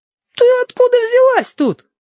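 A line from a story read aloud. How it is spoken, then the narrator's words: Surprised yelling. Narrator (Russian): опять заорал Филипп, скорее от удивления, чем от злости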